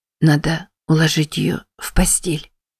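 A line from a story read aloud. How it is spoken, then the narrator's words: Hoarse wheeze. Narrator (Russian): прохрипела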